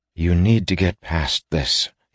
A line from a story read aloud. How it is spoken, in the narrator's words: he said, keeping his voice calmer this time